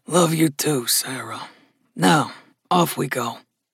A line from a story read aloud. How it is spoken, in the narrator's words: murmured Gus